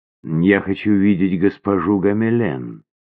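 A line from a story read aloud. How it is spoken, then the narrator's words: Calm. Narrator (Russian): сказала она спокойно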